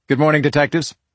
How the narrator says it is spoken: a familiar voice called out

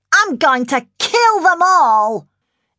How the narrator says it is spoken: Jodie thundered

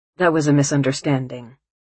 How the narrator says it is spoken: he says stiffly

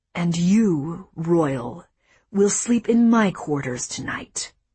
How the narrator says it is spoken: hissed

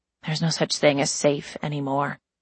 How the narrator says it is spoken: she said softly

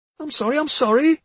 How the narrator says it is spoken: Francie cried

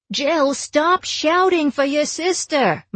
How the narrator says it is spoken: my mother screamed unhelpfully

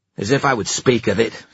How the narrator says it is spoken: snapped Erek

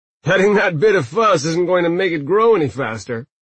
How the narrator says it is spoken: Rutger said with a loud laugh

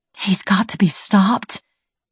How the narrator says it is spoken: she whispered

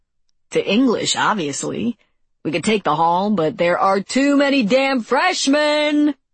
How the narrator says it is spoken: bellowed

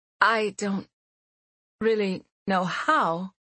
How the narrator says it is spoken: she said anxiously

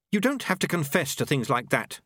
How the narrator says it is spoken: Susan snapped

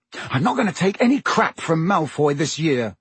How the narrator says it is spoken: he said angrily

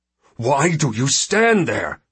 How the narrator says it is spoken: shouts the Ersad at his men

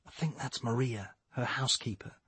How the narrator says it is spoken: whispered Nicole

